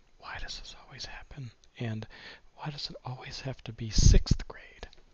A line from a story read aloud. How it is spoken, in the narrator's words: Grover was freaking me out, looking at me like I was a dead man, muttering